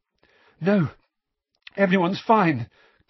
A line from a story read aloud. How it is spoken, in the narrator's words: gasped Harry, whose forehead felt as though it were on fire